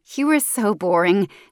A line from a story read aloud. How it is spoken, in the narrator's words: she laughs into the receiver